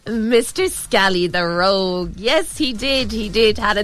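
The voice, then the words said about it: Irish accent slipping through. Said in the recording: “Irish accent in there”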